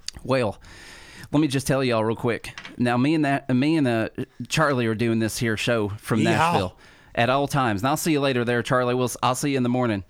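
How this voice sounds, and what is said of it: Put-on Southern American accent. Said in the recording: “my best Southern accent”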